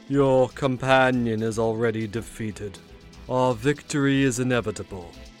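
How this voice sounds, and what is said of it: Cultured, deep character voice. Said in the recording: “in a cultured voice, deeper than the other”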